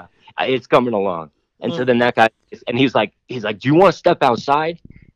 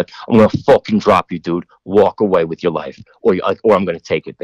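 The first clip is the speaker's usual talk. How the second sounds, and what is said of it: Boston accent, threatening. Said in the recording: “that was a really good Boston accent.”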